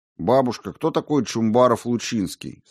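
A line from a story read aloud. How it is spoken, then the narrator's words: Plain. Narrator (Russian): спросил Сенцов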